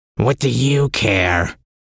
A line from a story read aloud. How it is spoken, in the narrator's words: the man-thing growled